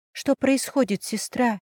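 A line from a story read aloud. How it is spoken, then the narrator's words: Whisper. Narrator (Russian): прошептала я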